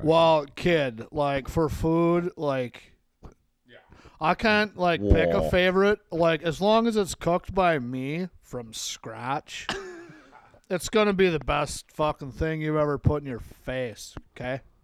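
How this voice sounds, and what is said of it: Impression of a friend's voice. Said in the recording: “do a Matt impression”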